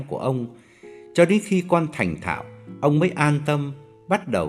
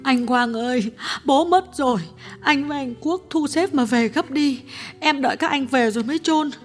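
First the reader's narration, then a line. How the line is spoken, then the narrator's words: Tearful voice over phone. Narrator (Vietnamese): Cô em gái điện thoại sang mếu máo nói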